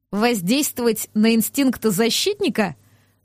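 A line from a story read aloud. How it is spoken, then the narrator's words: Open loud laughter. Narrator (Russian): Доминика откровенно расхохоталась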